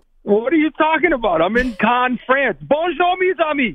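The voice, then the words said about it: Boston accent. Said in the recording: “I'd spot that Boston accent a mile away.”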